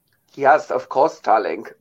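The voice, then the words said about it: Put-on German accent. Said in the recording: “Are you fully doing a German accent?”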